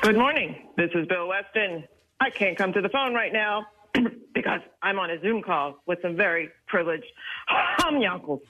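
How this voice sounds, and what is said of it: Imitates another person's voice. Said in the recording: “It's hard for ladies to do that voice. ... But pretty close.”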